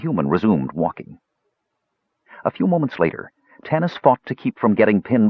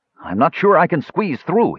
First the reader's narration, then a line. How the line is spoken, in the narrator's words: he called out